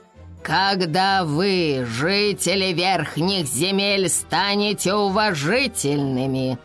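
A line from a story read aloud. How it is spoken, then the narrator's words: Booming voice overhead. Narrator (Russian): прогремел голос над головами специалистов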